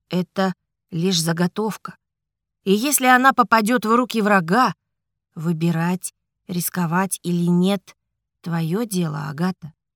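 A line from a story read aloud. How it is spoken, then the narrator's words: Gentle. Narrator (Russian): мягко сказал Альфред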